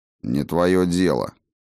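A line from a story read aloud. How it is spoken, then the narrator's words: Rude mutter. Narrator (Russian): не слишком вежливо буркнул Хаген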